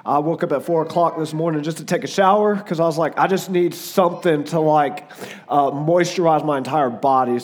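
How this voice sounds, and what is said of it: Hoarse, failing voice. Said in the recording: “My voice is gone... So if my voice goes out”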